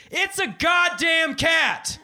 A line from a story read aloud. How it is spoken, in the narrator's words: yell